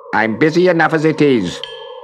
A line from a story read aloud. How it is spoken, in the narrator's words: said crossly